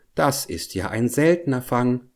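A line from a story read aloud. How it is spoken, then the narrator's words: Plain. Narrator (German): sagte sie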